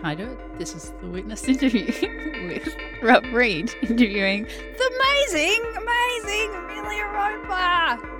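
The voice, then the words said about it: Announcer-style radio voice. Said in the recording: “Put on my radio voice.”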